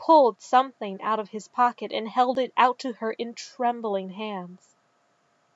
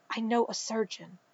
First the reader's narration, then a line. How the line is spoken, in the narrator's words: Kitster said in a rushed whisper